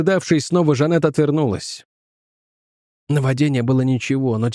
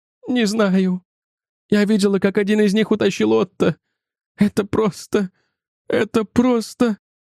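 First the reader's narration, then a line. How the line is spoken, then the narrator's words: Trembling, struggling for composure. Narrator (Russian): попыталась взять себя в руки и ответила дрожащим голосом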